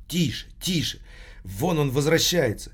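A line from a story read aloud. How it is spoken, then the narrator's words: Stifled loud whisper. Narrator (Russian): проговорила сдавленным громким шепотом хористка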